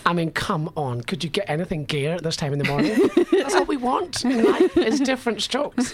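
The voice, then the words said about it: Scottish accent. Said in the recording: “my Scottish accent.”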